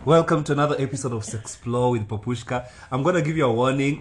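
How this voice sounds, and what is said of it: Rough voice with coughing, throat clearing. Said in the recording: “My voice is horrible today, so expect some cough, expect some clearing of my throat”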